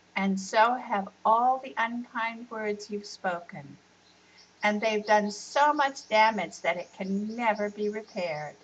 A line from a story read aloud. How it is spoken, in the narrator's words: The grandmother sadly said